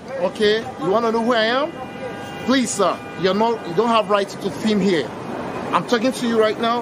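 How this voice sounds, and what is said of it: African-accented English. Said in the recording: “Some guy right out of Africa, but judging by his accent.”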